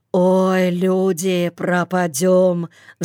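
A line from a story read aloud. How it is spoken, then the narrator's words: Sigh. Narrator (Russian): вздохнул Йоле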